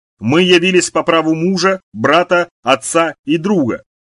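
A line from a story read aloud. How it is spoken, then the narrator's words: Loud declaration. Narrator (Russian): человек из замка громко произнес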